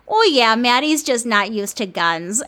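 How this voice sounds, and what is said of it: Minnesota accent imitation. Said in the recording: “my mom in this Minnesota accent”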